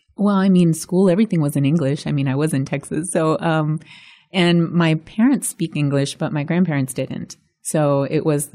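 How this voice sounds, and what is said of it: Faint hint of Spanish accent. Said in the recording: “you have no accent. And growing up speaking Spanish, you have a little hint of, but what you have is an intriguing little hint of an accent.”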